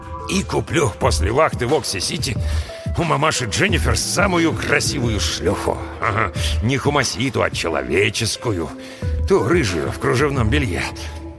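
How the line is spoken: Muttering. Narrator (Russian): пробормотал Брэм

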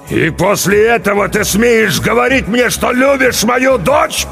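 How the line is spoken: Furious roar. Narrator (Russian): побагровев взревел Руго

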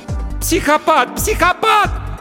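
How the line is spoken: Shouted. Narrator (Russian): закричала она

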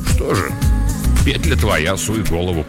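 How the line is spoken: Grumbling male voice. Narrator (Russian): буркнул он

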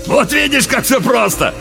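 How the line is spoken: Loud laughter again. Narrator (Russian): Вновь захохотал Уильямс

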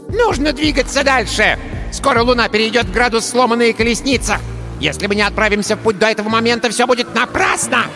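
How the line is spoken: Impatient squeak. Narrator (Russian): Нетерпеливо пропищал недомерок

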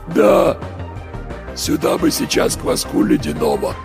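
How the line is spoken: Voiceless hoarse wheeze. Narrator (Russian): Просипел кто-то без голоса

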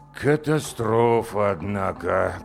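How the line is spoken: Drawling. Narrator (Russian): протянул директор

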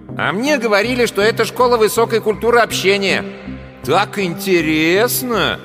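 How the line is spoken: Loud voice. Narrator (Russian): громко сказал в коридор

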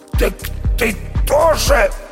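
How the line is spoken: Hoarse male rasp. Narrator (Russian): прохрипел Никита

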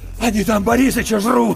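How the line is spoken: Shaking outcry. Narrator (Russian): выкрикнул Иван, и его затрясло

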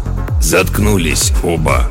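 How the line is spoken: Through barely parted lips. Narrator (Russian): едва разжимая губы, процедил Гроль

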